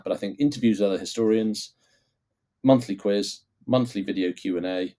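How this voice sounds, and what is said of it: Croaky, hoarse voice. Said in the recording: “my voice is going all croaky”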